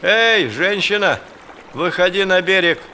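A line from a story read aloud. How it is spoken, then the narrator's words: Shout. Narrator (Russian): Тутахалик крикнул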